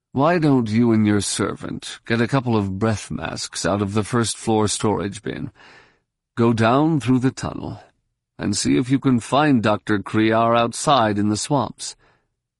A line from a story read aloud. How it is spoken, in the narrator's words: said wearily